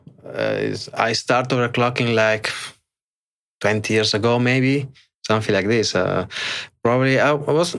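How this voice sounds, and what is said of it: Italian accent with Spanish traces. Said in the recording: “I'm Italian... maybe I have some Italian accent, some Spanish accent. I'm a bit mixed... the Italian is still the predominant one for sure”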